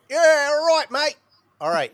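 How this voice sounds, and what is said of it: Exaggerated put-on Australian accent. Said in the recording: “that's an offensive Australian accent”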